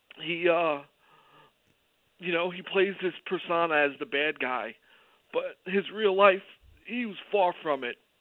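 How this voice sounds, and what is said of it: Choked up, emotional voice. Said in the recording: “I'm getting a little choked up.”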